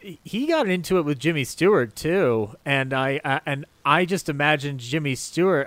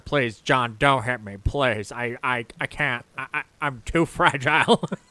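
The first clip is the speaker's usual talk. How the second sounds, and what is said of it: Imitates another person's voice. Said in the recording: “great imitation.”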